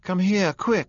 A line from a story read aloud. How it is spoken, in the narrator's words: cried Daisy